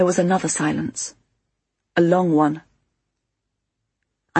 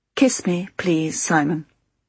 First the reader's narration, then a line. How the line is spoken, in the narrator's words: she said, very quietly, but very distinctly